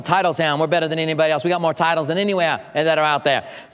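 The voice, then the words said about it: Put-on Boston accent. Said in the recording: “He said that accent from up there.”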